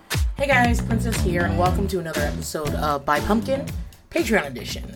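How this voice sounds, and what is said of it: Slightly gravelly, recovering voice. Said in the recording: “My voice is still a little bit gravelly right this second, but it's way better than it was.”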